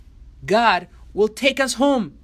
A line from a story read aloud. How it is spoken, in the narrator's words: exclaimed the people